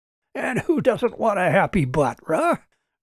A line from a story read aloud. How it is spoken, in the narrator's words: Robert laughed at his own joke